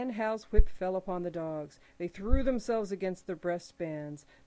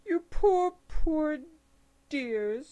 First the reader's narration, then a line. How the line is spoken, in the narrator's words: she cried sympathetically